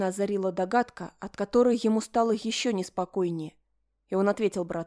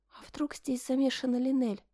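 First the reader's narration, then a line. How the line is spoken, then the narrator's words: Timid suggestion. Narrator (Russian): робко предположила Флора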